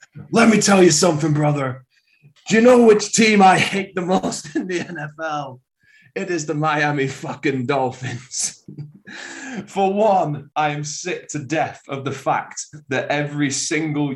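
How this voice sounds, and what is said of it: Wrestling promo style impression. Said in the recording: “I'm going to try and do this wrestling promo style ... I can do Hulk. A Hulkamania, though ... give us a Hogan”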